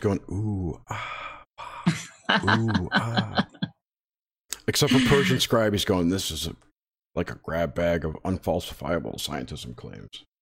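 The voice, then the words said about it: Sick, darker, lower voice. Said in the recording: “is sick. That's why his voice is darker and sexier than usual.”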